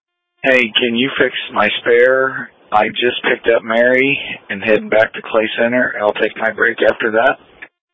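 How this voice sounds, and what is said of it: Slightly raspy voice. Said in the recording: “My throat's a little raspy today.”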